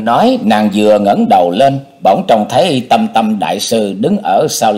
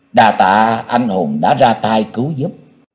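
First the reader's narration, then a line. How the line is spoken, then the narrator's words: Ashamed soft stammer. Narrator (Vietnamese): Nàng hổ thẹn khẽ ấp úng nói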